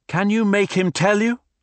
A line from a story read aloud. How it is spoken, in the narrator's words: Renmarie shouted above the torrent